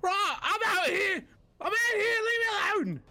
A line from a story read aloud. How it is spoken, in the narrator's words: seeing his companions dying and the dragon, one disappearing and one dying, screams out loud